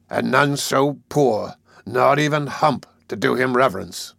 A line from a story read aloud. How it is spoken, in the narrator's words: he sneered